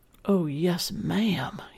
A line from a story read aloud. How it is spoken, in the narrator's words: he whispered